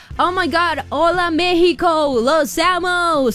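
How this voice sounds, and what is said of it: Put-on heavy American accent in Spanish. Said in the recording (Spanish): “se le va a salir el acento super gringo”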